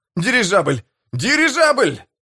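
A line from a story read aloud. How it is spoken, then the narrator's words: Shouting. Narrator (Russian): Кто-то закричал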